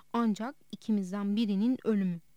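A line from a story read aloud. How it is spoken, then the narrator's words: Serious voice. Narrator (Turkish): diye karşılık verdi Nicholl ciddi bir sesle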